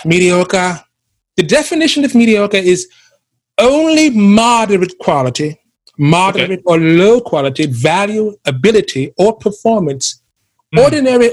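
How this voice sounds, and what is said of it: Put-on English accent. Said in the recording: “I shall do this in my English accent, the best one I have so far.”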